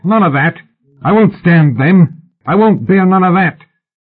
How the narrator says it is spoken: Thompson yelped

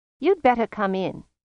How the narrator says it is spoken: said Mrs

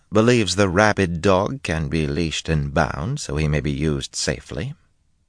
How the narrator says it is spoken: Nevarin said calmly

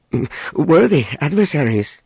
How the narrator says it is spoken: he stammered

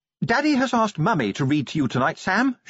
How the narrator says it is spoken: she announced brightly

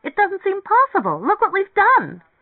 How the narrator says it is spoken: she exclaimed

